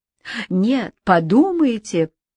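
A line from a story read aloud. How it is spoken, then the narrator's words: Sudden laughing interjection. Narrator (Russian): вставил вдруг засмеявшись Пьер Ламур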